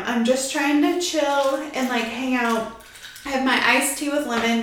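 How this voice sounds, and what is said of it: Out of breath speaking. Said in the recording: “I'm so out of breath. I don't know why I'm so out of breath”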